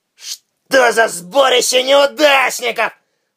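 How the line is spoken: Contemptuous, through teeth. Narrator (Russian): с презрением процедил

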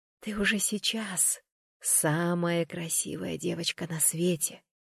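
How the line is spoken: Whisper. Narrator (Russian): прошептала я

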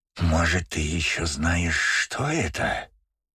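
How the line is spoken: Hissing. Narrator (Russian): прошипел Гольдстейн

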